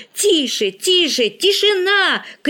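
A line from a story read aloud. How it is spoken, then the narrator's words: Shout. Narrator (Russian): крикнул Игорь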